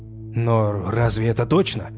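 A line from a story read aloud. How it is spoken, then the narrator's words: Uncertain question. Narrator (Russian): неуверенно спросил Фрейр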